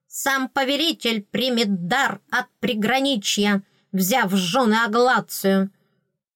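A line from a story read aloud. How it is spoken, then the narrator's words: Menacing bark. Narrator (Russian): рявкнула совсем не патетично, но грозно и доходчиво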